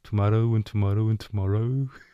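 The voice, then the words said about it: Birmingham accent. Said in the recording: “I was born in Birmingham, so my accent was a little bit different then. It was more like”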